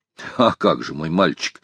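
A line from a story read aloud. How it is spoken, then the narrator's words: Serious reply. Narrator (Russian): серьезным тоном ответил майор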